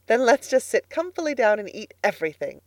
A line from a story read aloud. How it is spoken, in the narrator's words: said Miss Lavendar happily